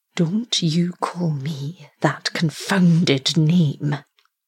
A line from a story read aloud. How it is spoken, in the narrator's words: growled MacFarlane